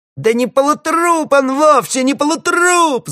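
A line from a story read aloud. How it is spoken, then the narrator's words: Sudden wild shriek, old man. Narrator (Russian): завизжал вдруг диковатый, как сорвавшийся с цепи, старичок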